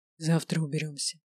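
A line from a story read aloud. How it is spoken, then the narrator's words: Hoarse whisper. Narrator (Russian): хрипло прошептал Грайнер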